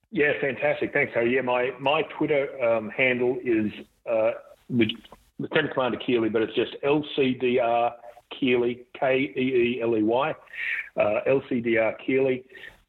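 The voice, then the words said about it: Australian accent. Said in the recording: “the coolest Australian accent”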